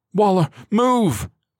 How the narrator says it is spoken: Galindo bellowed

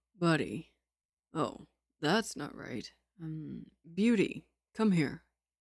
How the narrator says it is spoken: Lin Qingyu said coolly

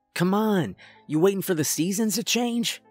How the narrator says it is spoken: Dax shouted while leaning out of the cab

